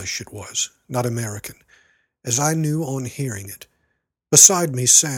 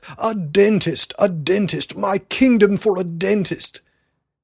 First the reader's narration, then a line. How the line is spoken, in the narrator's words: Then in a shout of wrath